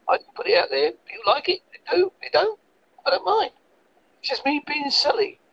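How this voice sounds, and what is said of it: Strong Essex English accent. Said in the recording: “Originally, I'm from Essex. ... That's why I got a strong accent.”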